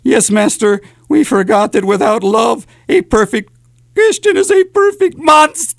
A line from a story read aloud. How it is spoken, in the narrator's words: Igor whimpered